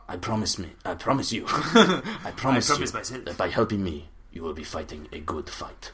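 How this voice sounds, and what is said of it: Character voice with foreign accent. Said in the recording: “Does he want me to adopt a similar accent when I'm talking to him?”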